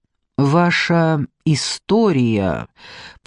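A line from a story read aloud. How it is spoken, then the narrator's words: Slow deliberate speech. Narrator (Russian): промолвил, наконец, Фарук, медленно выговаривая каждое слово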